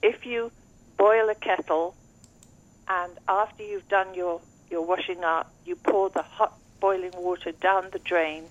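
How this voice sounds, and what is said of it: English accent. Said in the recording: “although I have an English accent”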